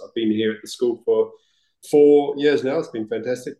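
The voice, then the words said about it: New Zealand accent. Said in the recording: “I can definitely pick up the accent from ... because I'm a wannabe Kiwi”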